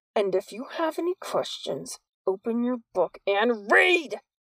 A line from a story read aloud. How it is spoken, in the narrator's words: He shouted the last word so loudly